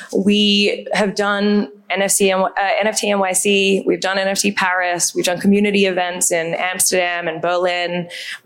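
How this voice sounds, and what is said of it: Australian accent. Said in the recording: “If you can't tell from my accent, I'm Australian”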